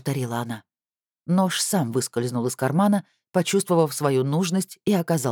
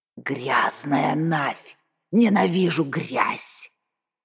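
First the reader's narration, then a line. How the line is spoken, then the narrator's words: Hissing. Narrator (Russian): расшипела она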